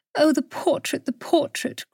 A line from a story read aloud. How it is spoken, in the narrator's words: cried Julietta